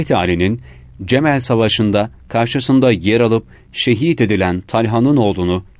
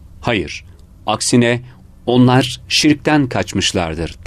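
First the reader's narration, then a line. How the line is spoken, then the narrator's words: Plain. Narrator (Turkish): dedi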